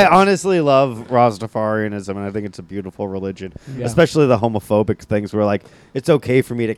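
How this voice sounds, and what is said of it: Usual voice. Nothing is said of it.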